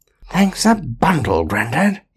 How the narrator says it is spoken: he added to himself under his breath

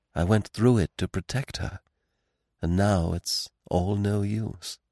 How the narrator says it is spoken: He smiled mournfully at Poirot, and said in a low voice

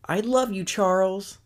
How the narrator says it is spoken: he yells out

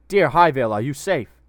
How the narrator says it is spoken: Uthir shouted down at him

